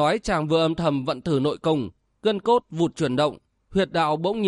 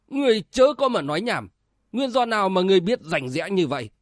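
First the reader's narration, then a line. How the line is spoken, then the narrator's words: Loud shout. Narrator (Vietnamese): Đạo sĩ đứng giữa quát to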